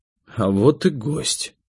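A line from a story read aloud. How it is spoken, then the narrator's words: Quiet speech. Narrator (Russian): тихо сказал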